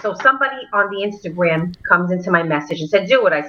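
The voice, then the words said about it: New York accent. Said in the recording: “I love the whole accent... the best New York accent”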